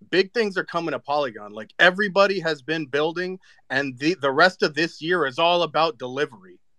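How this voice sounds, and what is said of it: Excited, hyped-up voice. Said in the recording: “you guys can tell by my voice, by how hype I am.”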